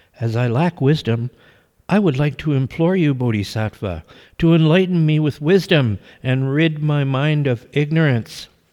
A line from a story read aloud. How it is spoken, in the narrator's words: the little monk replied in a sweet and sincere voice